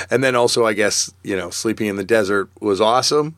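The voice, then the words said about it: Slightly hoarse voice. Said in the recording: “my voice is a little hoarse ... up late two nights in a row ... my voice is a little hoarse”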